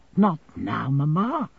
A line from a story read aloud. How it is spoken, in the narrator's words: she pleaded in a low tone